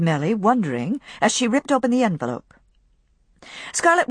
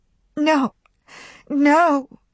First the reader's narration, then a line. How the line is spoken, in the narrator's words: cried Melanie